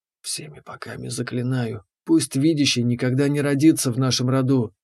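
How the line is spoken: Whisper. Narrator (Russian): прошептал король вслед супруге

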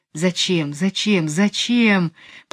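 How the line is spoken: Quavering, plaintive, tearful moan. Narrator (Russian): простонал голос, дребезжащий, жалобный, плачущий

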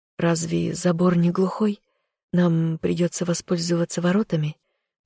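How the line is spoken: Hoarse statement. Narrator (Russian): Поморщившись от охриплости в собственном голосе, констатировала я

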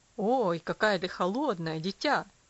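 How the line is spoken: Father's exclamation. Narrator (Russian): воскликнул отец

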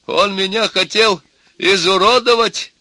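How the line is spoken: Father shouting. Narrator (Russian): кричал отец невесты

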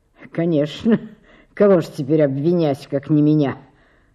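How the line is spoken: Muttering with snorts. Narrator (Russian): Бормотал, фыркая

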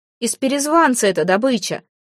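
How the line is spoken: Shouted. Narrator (Russian): крикнул Святослав

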